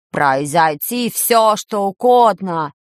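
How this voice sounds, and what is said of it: Mocking imitation of Professor Klop. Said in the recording (Russian): “похоже, передразнил баб-ягун”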